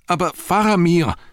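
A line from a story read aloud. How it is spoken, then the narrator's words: Shouted. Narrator (German): schrie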